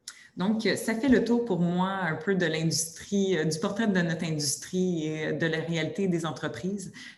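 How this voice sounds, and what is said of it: Québécois French accent, fast speech. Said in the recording (French): “mon accent québécois ... je parle assez rapidement”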